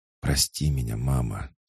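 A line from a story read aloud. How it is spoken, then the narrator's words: Whispered as years ago. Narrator (Russian): шептал, как и много лет назад, Хаджар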